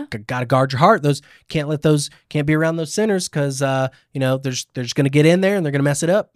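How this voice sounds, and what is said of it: Put-on Southern preacher accent. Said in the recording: “my Christian accent is Southern ... I go Southern”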